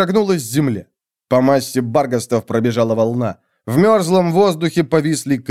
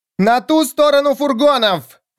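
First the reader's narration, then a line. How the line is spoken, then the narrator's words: Shout. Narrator (Russian): крикнула она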